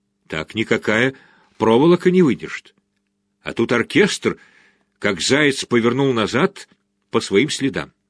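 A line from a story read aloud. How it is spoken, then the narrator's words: Quiet whisper. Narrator (Russian): Хоген Эйл тихо шепнул Мартину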